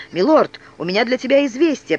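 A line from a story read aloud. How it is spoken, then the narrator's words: Boy's faltering babble. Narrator (Russian): пролепетал парнишка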